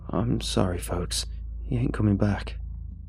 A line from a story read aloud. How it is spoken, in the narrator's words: he said shakily